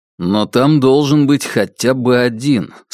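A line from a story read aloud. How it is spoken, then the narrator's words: Plain. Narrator (Russian): сказал Кай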